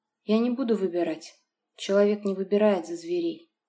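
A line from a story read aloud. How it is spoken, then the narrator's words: Perfectly calm voice. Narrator (Russian): несмотря на жгучую боль от оттянутых волос, совершенно спокойным голосом произнесла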